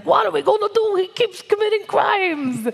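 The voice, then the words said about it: Mob lawyer impression. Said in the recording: “your mob lawyer impression ... It's like somewhere Joe Pesci just felt a chill.”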